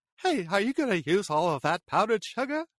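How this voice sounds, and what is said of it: John Mulaney impression. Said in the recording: “I could do a good John Mulaney ... John Mulaney”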